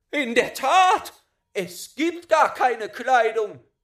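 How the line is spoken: Everyone exclaiming. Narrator (German): rief endlich jeder aus

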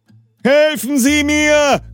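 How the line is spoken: Very loud. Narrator (German): Ganz laut

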